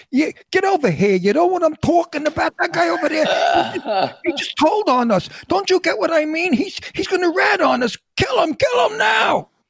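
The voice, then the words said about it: Put-on Brooklyn New York accent. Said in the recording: “I played Paulie from Brooklyn ... I really don't speak that ... New York accent”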